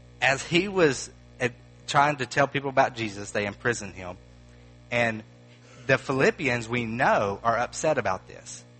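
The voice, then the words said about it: Southern American accent. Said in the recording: “even my Greek has a southern accent”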